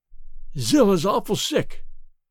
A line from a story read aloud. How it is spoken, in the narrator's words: he gasped